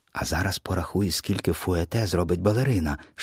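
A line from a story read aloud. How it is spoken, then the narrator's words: Grandmother's whisper in ear. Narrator (Ukrainian): шепнула на вушко бабуся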